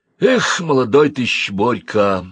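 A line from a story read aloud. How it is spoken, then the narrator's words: Sad. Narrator (Russian): грустно произнес Карасев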